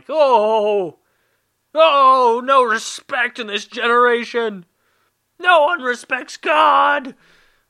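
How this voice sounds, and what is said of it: Loud, shouted mocking outburst. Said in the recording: “Sorry that was so loud.”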